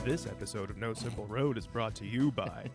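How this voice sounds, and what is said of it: Deep announcer-style radio voice. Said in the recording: “That's my radio voice. Really good. ... I was up late last night, so my voice is deeper than normal.”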